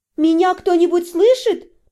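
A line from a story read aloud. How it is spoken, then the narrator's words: Louder shout. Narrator (Russian): крикнула я громче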